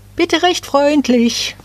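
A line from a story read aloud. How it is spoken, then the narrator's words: Called out. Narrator (German): eines rief dem Nadelbäumchen zu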